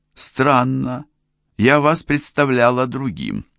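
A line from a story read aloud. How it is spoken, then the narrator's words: Uncertain voice. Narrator (Russian): неуверенным голосом сказала Анита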